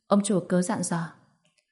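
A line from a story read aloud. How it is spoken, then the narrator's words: Woman in thirties, deferential. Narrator (Vietnamese): Một người phụ nữ tầm 30 tuổi mặc áo tím đi vào, cô ta khẽ khom người, nói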